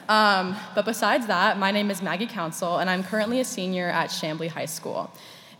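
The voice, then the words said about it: Rough, strained voice. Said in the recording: “excuse my voice this morning if it sounds a little rough. I just got back from the Taylor Swift concert about a few hours ago”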